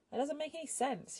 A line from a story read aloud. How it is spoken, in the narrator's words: she said angrily